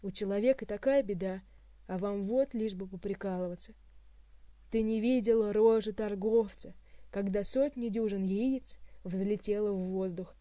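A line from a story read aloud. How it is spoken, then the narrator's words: Groaning. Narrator (Russian): простонал Хуан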